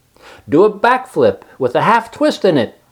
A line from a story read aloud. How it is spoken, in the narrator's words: cried Charlotte